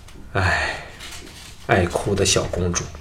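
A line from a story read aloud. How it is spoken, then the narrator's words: Sighing. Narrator (Chinese): 藤毅叹道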